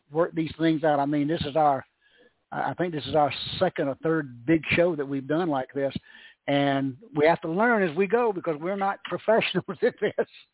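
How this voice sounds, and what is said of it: Southern American accent. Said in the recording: “as you can tell by his accent stuff, he's a Southerner”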